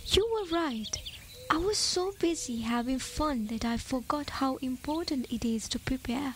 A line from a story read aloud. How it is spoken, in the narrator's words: he said quietly